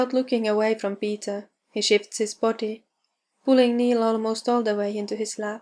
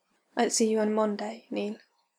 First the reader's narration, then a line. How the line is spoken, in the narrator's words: Peter says quietly